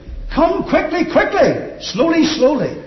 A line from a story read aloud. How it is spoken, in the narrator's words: he shouted again